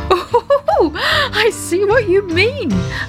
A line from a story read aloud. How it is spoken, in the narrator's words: laughed Daddy Ted